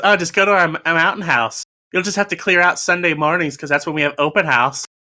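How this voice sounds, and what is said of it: Snooty woman's voice. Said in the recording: “I like your impression. ... I love this accent. ... I think it's actually pretty spot on. ... snooty women”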